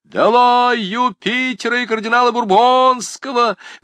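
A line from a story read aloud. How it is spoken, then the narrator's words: Crowd of students yelling. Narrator (Russian): вопил Робен Пуспен и прочие школяры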